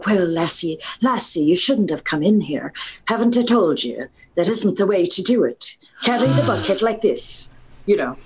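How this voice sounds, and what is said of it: Put-on Irish brogue. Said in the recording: “do an Irish brogue ... Can you demo an Irish ... An Irish brogue.”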